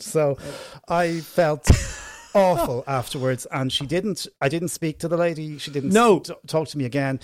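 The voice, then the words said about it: Irish accent. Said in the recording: “In my Irish accent.”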